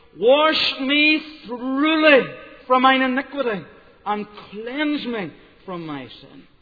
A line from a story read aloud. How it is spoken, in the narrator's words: The psalmist cried out